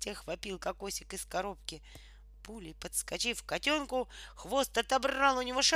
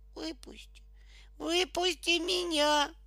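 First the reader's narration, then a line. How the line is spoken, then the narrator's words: Muffled plaintive meowing. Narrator (Russian): глухо и жалобно мяукал из коробки кокосик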